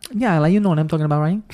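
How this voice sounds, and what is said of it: Put-on Hispanic girl accent, pretty good. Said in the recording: “I can do like a Spanish, Hispanic girl ... That was pretty good.”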